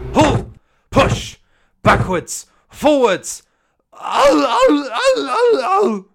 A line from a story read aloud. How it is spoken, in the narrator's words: the trucks groaned